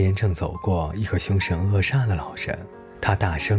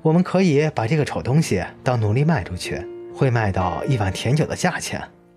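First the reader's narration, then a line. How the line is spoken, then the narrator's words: Laughing loudly. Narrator (Chinese): 那个人大笑说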